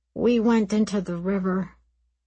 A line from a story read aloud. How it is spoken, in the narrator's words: Aram said wearily